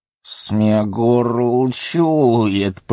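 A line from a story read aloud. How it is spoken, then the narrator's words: Hissing with disgust and anger. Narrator (Russian): прошипел он с отвращением и злобой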